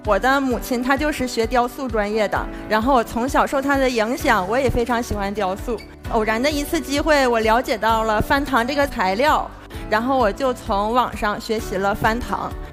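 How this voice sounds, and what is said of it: Regional Chinese accent. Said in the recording (Chinese): “我说听这口音咋那么亲切呢”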